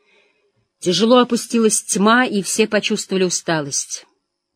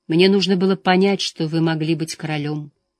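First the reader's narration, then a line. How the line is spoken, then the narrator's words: Quiet. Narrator (Russian): тихо сказала она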